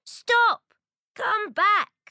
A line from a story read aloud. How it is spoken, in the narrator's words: She shouts